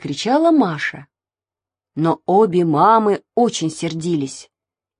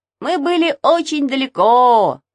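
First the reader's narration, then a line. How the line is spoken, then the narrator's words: Shouted. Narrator (Russian): закричал Саша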